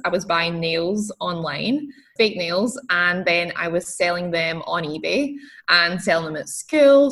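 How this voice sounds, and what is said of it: Scottish accent. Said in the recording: “you can hear my accent is a little bit different. I'm, I'm from Scotland.”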